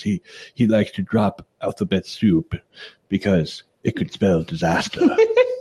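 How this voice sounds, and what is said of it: Imitates another person's voice. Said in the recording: “I butchered your impersonation of Bear Grylls”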